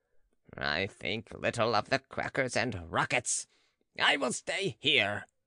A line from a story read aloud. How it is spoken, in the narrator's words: growled the baron